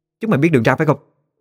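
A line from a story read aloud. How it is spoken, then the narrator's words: Loud shout. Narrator (Vietnamese): Tiếng quát lớn của Nguyệt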